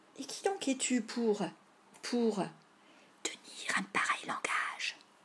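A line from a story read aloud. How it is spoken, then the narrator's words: Whispered prompt. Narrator (French): souffla Tom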